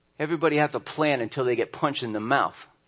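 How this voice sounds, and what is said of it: Poor Mike Tyson impression. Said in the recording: “my terrible impersonation ... Mike Tyson”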